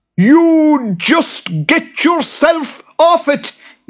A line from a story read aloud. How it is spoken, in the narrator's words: yelled the boggart